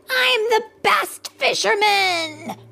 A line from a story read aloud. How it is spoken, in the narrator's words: cried Max